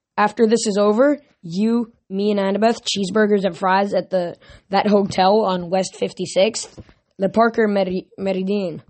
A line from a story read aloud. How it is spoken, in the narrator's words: I said